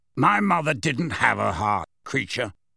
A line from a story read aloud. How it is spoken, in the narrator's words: said Sirius coldly